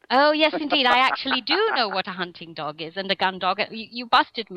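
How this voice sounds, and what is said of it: English accent. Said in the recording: “I can tell from the accent ... nice to hear an English accent”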